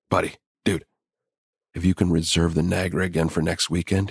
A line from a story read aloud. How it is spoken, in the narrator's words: he whispered excitedly